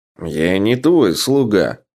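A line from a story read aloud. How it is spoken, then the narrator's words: Angry. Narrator (Russian): сердито произнес Гавард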